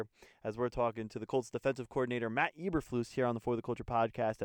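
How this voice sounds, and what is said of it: Slight New Jersey accent. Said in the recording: “did I sense a little bit of an accent there? ... I do have an accent, but I'm actually from Jersey”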